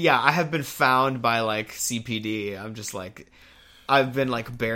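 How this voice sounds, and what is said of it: Usual voice. Nothing is said of it.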